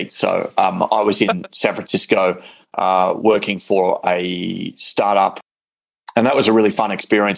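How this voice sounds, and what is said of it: Very thick Australian accent. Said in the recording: “you can hear the very thick Aussie accent”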